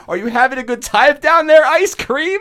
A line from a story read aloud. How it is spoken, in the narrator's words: he screams at his stomach, and he goes